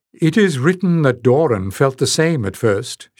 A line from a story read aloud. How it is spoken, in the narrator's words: chuckled